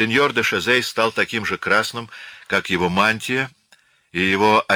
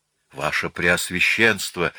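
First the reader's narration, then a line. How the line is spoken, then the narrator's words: Frightened calling out. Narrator (Russian): воззвал аббат испуганно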